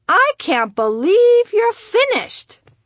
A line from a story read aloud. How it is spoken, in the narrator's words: she squealed